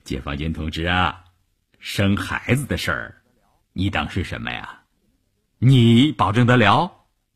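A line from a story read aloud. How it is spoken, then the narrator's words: Smiling but unyielding. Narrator (Chinese): 车长虽然笑着，一副毫不通融的样子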